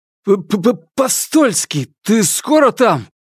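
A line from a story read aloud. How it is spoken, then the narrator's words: Grumpy shout, chattering teeth. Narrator (Russian): сварливо прокричал Корсаков, стуча зубами почище испанских кастаньет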